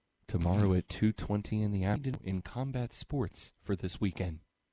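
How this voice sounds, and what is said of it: Mock NPR announcer voice. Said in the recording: “do an NPR voice on different stations, making fun of the NPR voice. Yours is excellent.”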